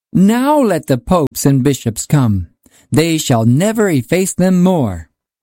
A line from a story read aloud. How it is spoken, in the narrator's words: the painters exclaimed